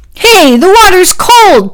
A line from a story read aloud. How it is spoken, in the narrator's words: Packy yelled